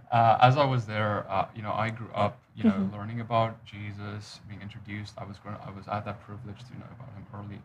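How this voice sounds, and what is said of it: South African accent. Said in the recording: “I grew up Dutch Reformed in South Africa, hence the strange accent”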